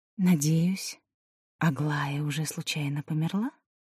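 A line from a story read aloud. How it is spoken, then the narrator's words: Whispered question. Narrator (Russian): Элина спросила шепотом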